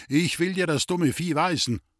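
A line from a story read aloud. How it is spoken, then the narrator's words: Fat man calling. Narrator (German): rief der dicke Mann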